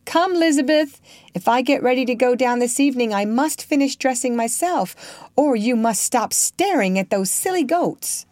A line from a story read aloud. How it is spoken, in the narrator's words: Lincoln called out